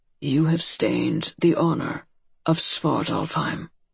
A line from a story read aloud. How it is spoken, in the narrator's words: said in a calm, quiet, pitiless voice